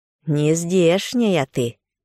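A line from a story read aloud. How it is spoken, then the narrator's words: Stern, familiar-sounding stove voice. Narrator (Russian): Печка ответила строго, голосом, подозрительно напоминавшим Егиню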